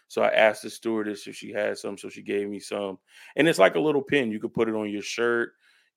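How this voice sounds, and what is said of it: Slightly raspy, strained voice. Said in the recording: “I sound a little raspy,... that's because my voice ain't back 100%... trying to get my voice back from yelling at the game”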